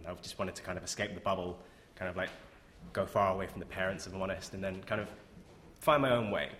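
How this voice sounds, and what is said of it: North London English accent. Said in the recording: “if you couldn't tell from my accent, I grew up in North London”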